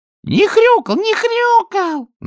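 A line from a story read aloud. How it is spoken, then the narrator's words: Loud squeak, young. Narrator (Russian): на весь зал пропищала молоденькая свинка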